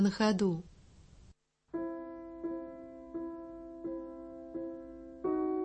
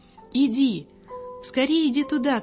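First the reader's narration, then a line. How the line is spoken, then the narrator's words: Shouting. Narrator (Russian): крикнул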